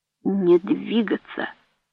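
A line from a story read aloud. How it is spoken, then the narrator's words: Deep, hoarse, breathy. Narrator (Russian): прохрипел глубокий голос с придыханием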